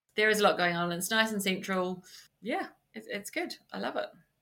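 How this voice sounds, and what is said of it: New Zealand accent. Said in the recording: “can't move on before we cover the accents. Where are you originally from? ... From New Zealand.”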